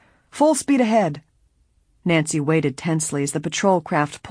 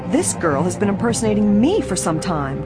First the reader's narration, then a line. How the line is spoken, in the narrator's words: Gay snapped